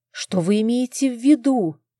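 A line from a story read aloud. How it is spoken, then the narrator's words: Frightened interruption. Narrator (Russian): испуганно перебила я его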